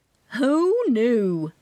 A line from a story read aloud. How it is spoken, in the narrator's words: my Aunt Maxine Bloom asked in her long southern drawl